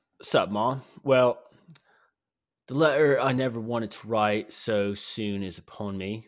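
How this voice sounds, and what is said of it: Put-on British surfer accent. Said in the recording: “I don't know what I'm fucking accent. ... A surfer, European. ... British surfer.”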